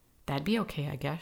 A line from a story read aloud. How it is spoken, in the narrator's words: she answered